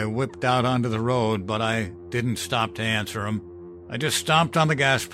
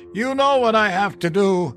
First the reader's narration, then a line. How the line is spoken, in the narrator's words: He yelled